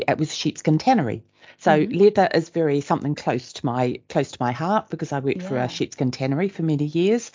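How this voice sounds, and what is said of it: New Zealand accent. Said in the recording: “I am a New Zealander, in case my accent throws people ... that's not a North Yorkshire accent”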